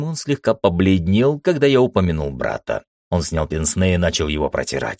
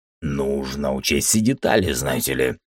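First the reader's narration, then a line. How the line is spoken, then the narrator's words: Grumbled. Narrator (Russian): проворчал Теремон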